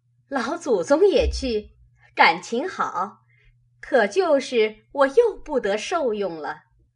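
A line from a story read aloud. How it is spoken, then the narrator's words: Laughing. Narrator (Chinese): 凤姐笑道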